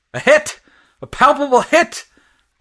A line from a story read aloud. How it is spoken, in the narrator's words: cried the leading gunner